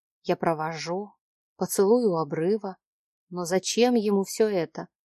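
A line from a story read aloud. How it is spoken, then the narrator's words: Whispered. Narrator (Russian): прошептала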